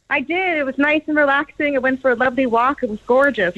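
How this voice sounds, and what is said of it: Canadian English accent. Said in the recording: “Where's that accent from? ... Canada. ... Montreal.”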